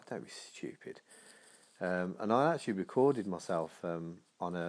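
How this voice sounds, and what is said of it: Usual voice. Nothing is said of it.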